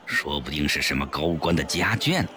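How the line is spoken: Lowered voice. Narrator (Chinese): 肥肥也压低声音说

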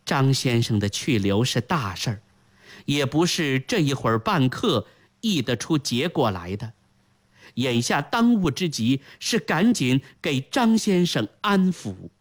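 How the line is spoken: Sighing. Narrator (Chinese): 李太后叹了一口气，说道

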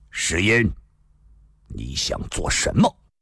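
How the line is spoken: Sudden stern voice. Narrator (Chinese): 突然有一人厉声说道

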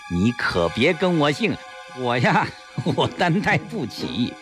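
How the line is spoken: Smug laugh. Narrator (Chinese): 严景文得意的一笑

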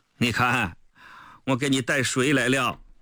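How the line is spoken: Playful joking. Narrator (Chinese): 毛泽东倒是很风趣地开玩笑说

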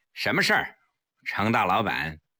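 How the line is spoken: Cold. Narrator (Chinese): 黄翠微冷冷地说

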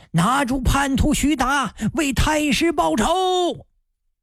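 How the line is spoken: Shout. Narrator (Chinese): 不知是谁喊了一声

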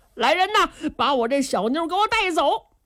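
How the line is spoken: Shout. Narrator (Chinese): 他就冲着手下人喊

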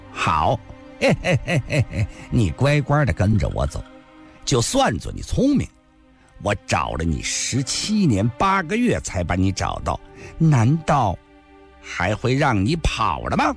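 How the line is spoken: Sinister sneer. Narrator (Chinese): 独眼夫人狞笑着说道

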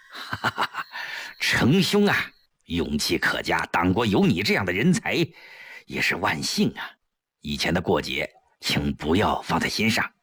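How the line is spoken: Beaming cheerfully. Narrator (Chinese): 吴云飞顿时眉开眼笑

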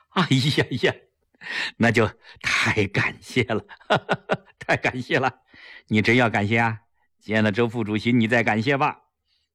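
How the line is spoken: Laughing. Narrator (Chinese): 齐长鹏笑着说

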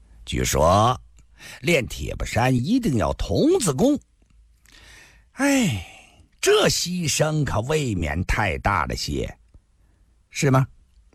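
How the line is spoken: Calm, laughing. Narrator (Chinese): 梅尔先生居然也不生气，还是笑着说

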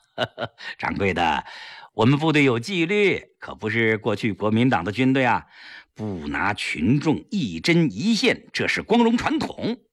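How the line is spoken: Laughing. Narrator (Chinese): 笑着说

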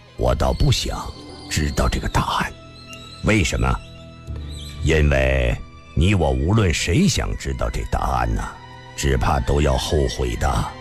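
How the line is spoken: Faint indifferent smile. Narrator (Chinese): 李寻欢淡淡的一笑

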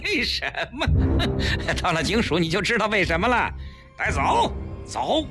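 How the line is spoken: Sinister laugh. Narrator (Chinese): 带头的警察阴险地笑了

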